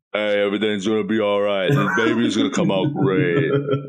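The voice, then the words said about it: Imitates another person's voice. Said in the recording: “I don't know how I feel about that Sly impression ... No, he's Luigi now ... it's disappointing”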